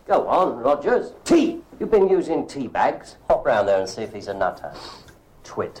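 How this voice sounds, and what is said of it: Strong British accent. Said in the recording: “being extremely British ... Beautiful British accent ... So British ... So extremely British”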